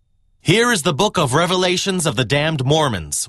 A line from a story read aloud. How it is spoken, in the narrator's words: shouted to the crowd